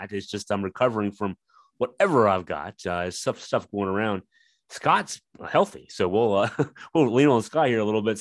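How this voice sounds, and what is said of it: Voice a little under the weather. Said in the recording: “You can tell my voice is still a little under the weather”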